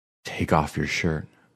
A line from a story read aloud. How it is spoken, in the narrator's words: I whispered